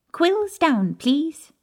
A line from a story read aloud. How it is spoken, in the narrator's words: Professor Flitwick squeaked